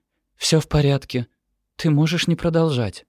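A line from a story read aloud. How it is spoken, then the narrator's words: Gentle. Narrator (Russian): мягко говорит Ремеди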